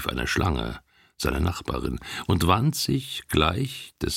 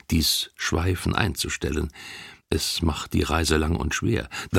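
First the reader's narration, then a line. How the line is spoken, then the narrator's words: Gentle male voice. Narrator (German): sprach er sanft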